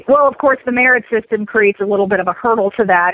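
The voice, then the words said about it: Sarcastic tone. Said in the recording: “hear the sarcasm in my voice.”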